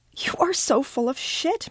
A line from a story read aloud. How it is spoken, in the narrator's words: Miranda cries